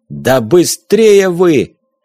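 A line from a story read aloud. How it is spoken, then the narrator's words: Yelling. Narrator (Russian): Видя, что люди растерялись, заорал он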